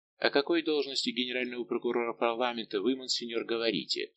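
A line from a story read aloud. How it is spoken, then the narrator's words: Plain. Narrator (Russian): спросил Ванель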